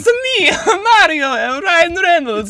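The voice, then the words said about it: Mario character impression. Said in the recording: “his Mario impression”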